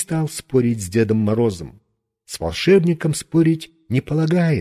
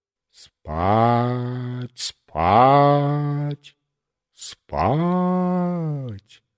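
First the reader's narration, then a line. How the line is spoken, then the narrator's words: Sepulchral stage voice. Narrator (Russian): за могильным голосом произносил со сцены бледный гипнотизер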